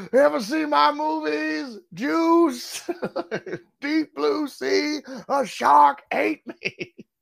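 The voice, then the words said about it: Loud, yelling impression of another person. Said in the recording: “Was it a Samuel Jackson ... Why are you yelling?”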